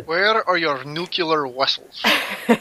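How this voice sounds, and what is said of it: Heavy Russian accent, Star Trek's Chekov. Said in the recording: “this guy with a heavy Russian accent asking a police officer where the nuclear ships are”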